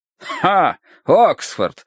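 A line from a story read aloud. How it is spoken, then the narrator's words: Scoffing snort. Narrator (Russian): хмыкнул полковник Меринг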